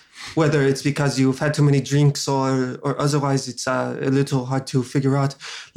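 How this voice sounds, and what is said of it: Put-on foreign accent, maybe French or German. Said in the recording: “Like my accent. ... is it French? ... Is it German? ... save me from this accent. ... I can stop speaking this incredible”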